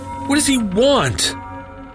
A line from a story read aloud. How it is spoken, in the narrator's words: I yelled in desperation